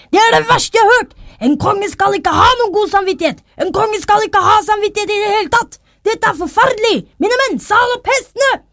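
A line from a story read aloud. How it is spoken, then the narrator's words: Yelling furiously. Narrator (Norwegian): han hausa og ropte så fælt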